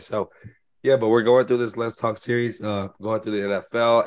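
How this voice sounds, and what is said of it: Hoarse, strained voice. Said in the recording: “Excuse my voice. I am going through a loss of voice”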